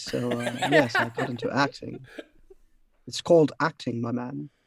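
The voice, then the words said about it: Theatrical voice-over style voice. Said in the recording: “Do your voice over voice. ... My thespian voice.”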